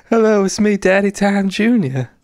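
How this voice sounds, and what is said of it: Father Time character voice. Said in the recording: “I don't know why I'm doing the Father Time voice.”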